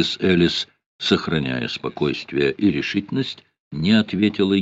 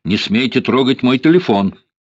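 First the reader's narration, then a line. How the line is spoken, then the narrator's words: Young woman shouting. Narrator (Russian): крикнула молодая особа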